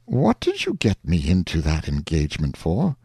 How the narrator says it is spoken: the uncle reproached the nephew gently, saying

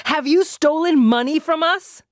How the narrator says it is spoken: she shouted again

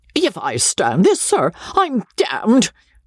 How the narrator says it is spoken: roared Joseph

